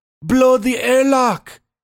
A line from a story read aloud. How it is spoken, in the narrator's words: shouted Reese